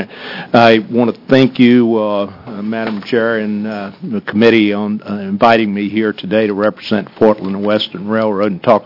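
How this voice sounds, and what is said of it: Non-local regional accent. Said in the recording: “you'll notice by this accent, I'm not from here”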